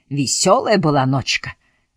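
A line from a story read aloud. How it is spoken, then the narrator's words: Exclaimed. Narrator (Russian): воскликнул один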